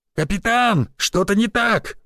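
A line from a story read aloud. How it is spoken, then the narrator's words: Yelled from above. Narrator (Russian): заорали со стены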